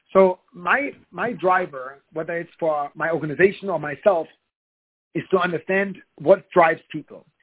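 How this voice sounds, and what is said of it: Non-native, German-speaker English accent. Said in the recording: “You can probably tell by my accent that I'm not a native to the United States. I speak German”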